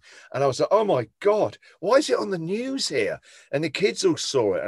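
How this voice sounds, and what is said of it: English accent. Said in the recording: “Suddenly people would recognise my accent. You're the only English guy on the radio in Australia.”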